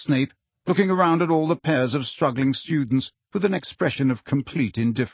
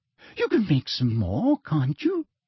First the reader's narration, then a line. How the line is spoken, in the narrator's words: she said, her voice becoming more sweetly girlish as it always did when she was furious